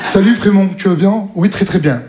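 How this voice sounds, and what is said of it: Put-on Parisian French accent. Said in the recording (French): “Ils ont tous accent parisien.”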